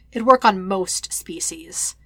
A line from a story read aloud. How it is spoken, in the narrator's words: Kakarot corrects with a sigh